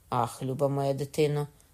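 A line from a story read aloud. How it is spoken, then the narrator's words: Plain. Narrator (Ukrainian): сказала Катерина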